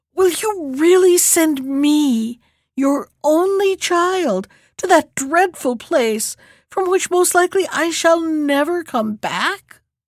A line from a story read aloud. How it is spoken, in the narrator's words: when the princess heard these words, she burst into tears and sobbed out